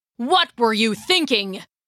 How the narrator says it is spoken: Grandpa roared

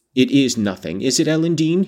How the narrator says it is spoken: said sternly

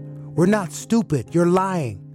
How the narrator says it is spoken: I yelled out

